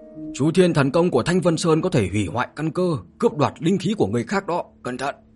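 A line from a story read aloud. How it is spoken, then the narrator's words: Urgent old man's shout. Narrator (Vietnamese): Lão ấu áo đen biết tình huống không ổn, trong lúc cấp bách hét lớn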